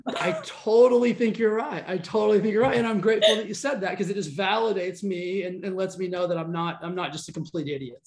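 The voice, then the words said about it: Slight Southern US twang. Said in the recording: “I'm from the South, so I've got a little bit of like a Southern twang”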